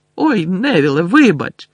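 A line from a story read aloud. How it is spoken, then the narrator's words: Shouted over laughter. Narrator (Ukrainian): вигукнув Фред, перекрикуючи сміх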